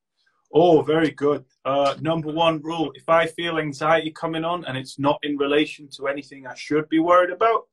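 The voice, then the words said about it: Northern English accent. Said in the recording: “weird British accents ... we're not from posh London. We are from some weird northern town.”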